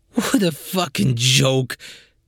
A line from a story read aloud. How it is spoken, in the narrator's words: grumbled the councilman